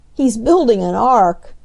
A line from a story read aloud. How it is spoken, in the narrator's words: laughed Bert